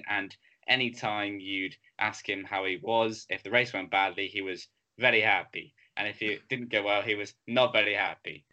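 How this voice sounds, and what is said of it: Imitates another person's voice. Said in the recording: “That is such a good impression of Jarno Trulli”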